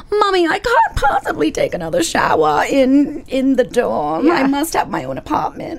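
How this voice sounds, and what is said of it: Spoiled bratty child voice. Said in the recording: “my best Veruca imitation”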